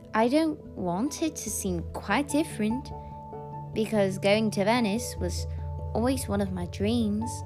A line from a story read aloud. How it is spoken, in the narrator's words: replied Katy with a little laugh